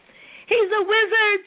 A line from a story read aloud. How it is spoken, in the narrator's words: she sputtered